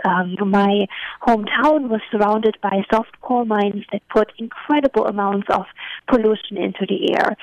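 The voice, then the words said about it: German-accented English. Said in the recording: “as you can hear from my accent, I'm from Eastern Germany”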